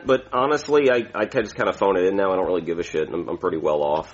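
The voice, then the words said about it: Mild Brooklyn accent. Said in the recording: “Pennsylvania Dutch? ... it's actually a Brooklyn accent. It used to be like a harder accent”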